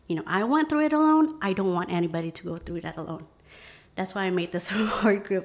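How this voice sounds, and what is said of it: Emotional, choked-up voice. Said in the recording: “I'm sorry, I'm a bit emotional about it.”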